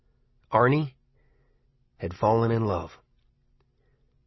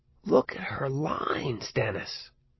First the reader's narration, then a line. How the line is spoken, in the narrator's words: Arnie whispered